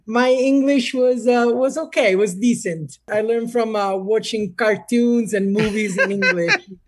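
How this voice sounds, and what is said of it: Slight Italian accent in English. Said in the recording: “Just enough accent”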